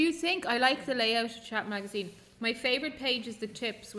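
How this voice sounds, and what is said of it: Usual voice. Nothing is said of it.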